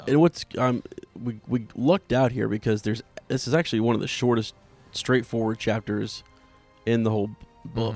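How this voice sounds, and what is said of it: Losing voice, occasional voice cracks. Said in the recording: “Under the weather ... losing my voice, you're gonna hear my voice crack probably a couple times”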